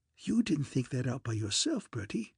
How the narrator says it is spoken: said young Bingo, in a hushed sort of voice

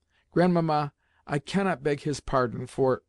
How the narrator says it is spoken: I stopped suddenly, for I felt the next word refused to come for the tears that were choking me

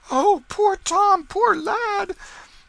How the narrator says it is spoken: with woe and dismay in their faces, exclaiming

